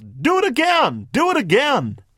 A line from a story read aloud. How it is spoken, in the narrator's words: the child likes, the little one yells